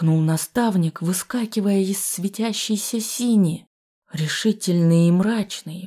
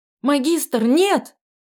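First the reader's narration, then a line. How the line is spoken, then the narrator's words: Sharp cry. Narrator (Russian): Вскрикнув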